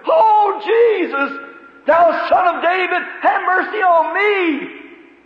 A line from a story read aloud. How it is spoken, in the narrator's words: the old beggar scream to the top of his voice